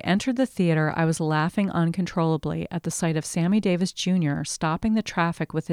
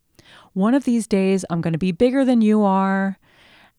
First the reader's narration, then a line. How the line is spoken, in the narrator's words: I heard Sammy yelling to me through the traffic